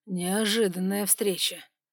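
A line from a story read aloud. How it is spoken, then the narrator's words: Smirking grunt. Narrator (Russian): хмыкнул он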